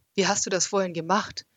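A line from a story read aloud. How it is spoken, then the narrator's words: Fearful, slightly dumb question. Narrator (German): fragte ich und hoffte, dass meine Stimme ängstlich und ein bisschen dämlich klang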